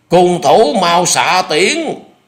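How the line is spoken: Furious loud shout. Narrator (Vietnamese): Trương Dực lồng lộng hét lớn

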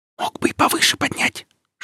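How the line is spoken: Whisper. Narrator (Russian): шепнула Оля

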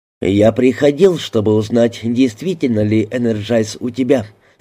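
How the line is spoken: Plain. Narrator (Russian): сказал я

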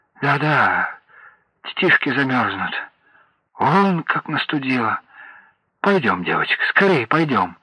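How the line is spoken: Muttering. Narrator (Russian): забормотала

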